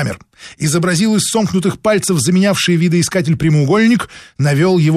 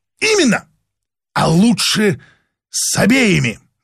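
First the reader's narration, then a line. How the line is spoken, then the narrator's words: Exclaimed. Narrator (Russian): воскликнул Шершнев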